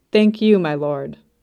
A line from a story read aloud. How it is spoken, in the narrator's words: said firmly putting him in his place